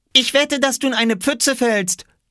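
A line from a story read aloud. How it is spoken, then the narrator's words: Called out. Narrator (German): rief Oskar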